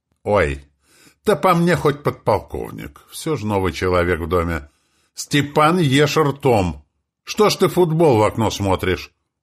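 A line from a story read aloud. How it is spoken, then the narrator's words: Shouting at boys. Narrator (Russian): закричала на пацанов, гоняющих во дворе мяч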